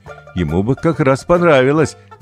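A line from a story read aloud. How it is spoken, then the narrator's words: Laughing. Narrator (Russian): засмеялся папа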